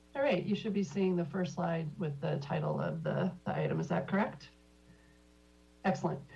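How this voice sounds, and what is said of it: Slightly hoarse voice. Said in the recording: “I'm a little hoarse today, but hopefully we'll get through this without too many coughing fits”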